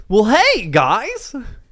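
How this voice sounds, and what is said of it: Impression of Jimmy Neutron's dad. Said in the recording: “Can I do a Jimmy Neutron impression? ... Can I do his dad? ... He kind of talks like that.”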